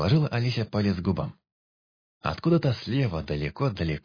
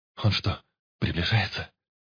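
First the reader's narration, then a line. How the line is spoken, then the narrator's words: Hysterical whisper. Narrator (Russian): Истеричным шепотом спросил Пыш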